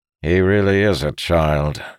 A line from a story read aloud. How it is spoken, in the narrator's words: Mirodin said with a groan